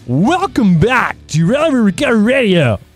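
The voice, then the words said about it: Announcer-style radio voice. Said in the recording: “I'll do my radio voice.”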